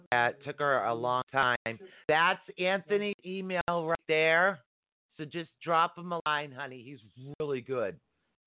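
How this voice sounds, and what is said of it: Boston-area Massachusetts accent. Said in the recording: “you're near me geographically based your accent. Are you in Boston or Massachusetts? ... I recognize the accent right away.”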